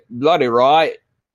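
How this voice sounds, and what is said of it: Attempted British accent. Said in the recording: “I try this British accent, but people don't know what the hell I sound like”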